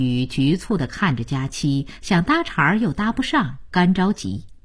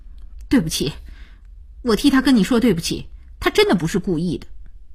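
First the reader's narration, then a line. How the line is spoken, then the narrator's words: Stern, resolute voice. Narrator (Chinese): 声音凛然起来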